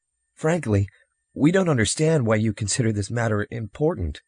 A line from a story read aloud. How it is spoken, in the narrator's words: Harper said uneasily